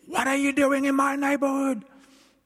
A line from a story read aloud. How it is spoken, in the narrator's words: she shouted